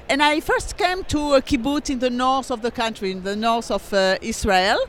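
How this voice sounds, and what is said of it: French accent. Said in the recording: “I was born in France, as the name and the accent tell”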